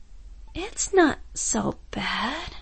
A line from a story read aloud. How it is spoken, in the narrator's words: she said, her voice trailing off dreamily